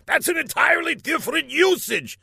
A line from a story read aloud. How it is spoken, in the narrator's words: shouted Laszlo